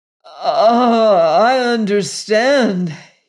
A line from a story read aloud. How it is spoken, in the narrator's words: he cried in hoarse accents